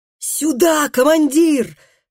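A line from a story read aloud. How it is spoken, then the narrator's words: Shouted at full voice. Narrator (Russian): крикнул Тарий во весь голос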